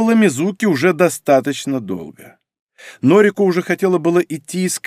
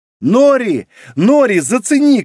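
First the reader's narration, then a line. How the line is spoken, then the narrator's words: Shouted. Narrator (Russian): крикнула Мизуки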